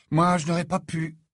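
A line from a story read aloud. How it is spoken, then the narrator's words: Sighed. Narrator (French): soupira Harry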